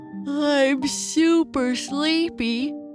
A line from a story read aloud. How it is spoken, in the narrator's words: Papa Bear said as he covered his mouth while he yawned